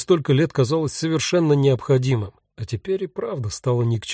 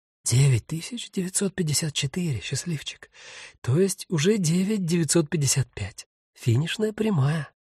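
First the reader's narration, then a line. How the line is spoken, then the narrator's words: Hurried whisper. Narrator (Russian): торопливо прошептала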